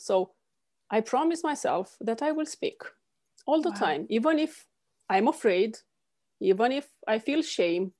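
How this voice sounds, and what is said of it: Non-native accent. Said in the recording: “embarrassed by my accent or my imperfect way of speaking”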